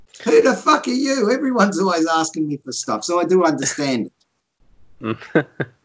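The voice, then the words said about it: Australian accent. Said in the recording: “you probably don't hear an Aussie accent there very often ... I don't hear Aussie accents too often”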